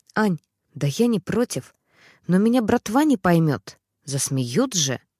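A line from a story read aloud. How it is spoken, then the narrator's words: Quiet, serious, apologetic. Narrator (Russian): Тот на полном серьезе, словно оправдываясь, тихонько сказал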